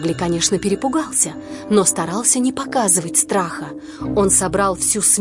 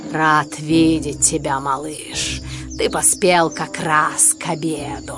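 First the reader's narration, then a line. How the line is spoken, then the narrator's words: Pleased growl. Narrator (Russian): Шерхан довольно зарычал и сказал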